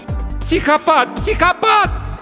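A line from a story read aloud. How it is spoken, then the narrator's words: Scream. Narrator (Russian): закричала она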